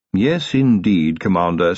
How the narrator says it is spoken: said Willikins

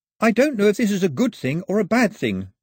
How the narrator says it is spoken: Pilu said, glancing up nervously

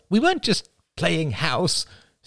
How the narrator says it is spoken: snapped Rachel

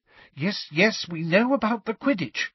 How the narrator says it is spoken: said Hermione in a tense voice

